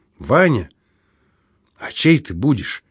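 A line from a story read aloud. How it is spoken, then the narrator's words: Trembling voice, asking. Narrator (Russian): дрогнувшим голосом спросила Мария Семеновна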